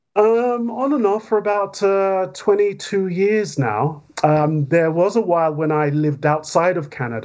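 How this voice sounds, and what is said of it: British accent. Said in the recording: “he's a Brit just like me, now living in Canada... two with a Brit accent”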